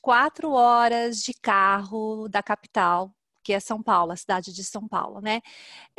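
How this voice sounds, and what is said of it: São Paulo interior accent, rolled R. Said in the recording (Portuguese): “Você tem um sotaque diferente da capital... a diferença maior é o R, a pronúncia do R”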